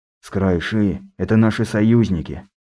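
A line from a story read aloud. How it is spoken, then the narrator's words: Sigh. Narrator (Russian): вздохнул федерал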